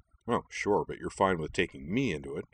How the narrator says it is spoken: Caden Mok grumbled

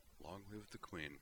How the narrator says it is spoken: murmured with less rote form and more warm admiration

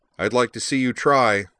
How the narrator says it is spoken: Corwin replied

